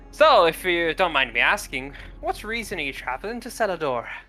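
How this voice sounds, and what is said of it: Character voice with shifting accent. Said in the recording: “My accent changed again... why's your accent changed, sir?... I can't keep track of all these damn accents.”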